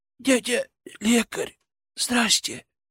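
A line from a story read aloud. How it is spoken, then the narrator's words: Hoarse rasp. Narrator (Russian): прохрипел он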